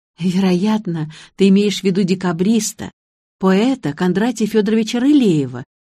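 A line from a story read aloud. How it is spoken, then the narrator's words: Sighing. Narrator (Russian): вздохнула я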